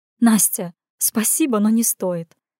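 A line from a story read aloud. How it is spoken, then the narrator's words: Giggling through tears. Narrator (Russian): Прекращая плакать, хихикнула она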